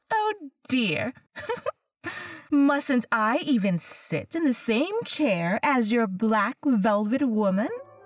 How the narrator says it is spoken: With a laugh that set every nerve in my body vibrating with annoyance, she said

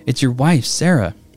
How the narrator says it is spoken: the woman begged

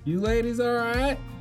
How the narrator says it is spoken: I hollered from my truck window

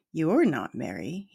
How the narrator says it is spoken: he said

